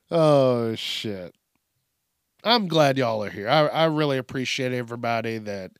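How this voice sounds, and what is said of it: Speaks with a twang. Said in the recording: “I don't know where that twang came from ... I have a little accent sometimes”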